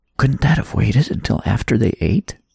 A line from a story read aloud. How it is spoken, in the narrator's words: Abigail chuckled